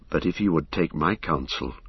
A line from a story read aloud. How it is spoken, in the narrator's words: said Éomer in a low voice